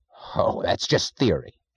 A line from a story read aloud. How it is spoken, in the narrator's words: snapped Mr